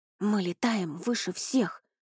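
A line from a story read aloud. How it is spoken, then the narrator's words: Whispered. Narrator (Russian): прошептал Рони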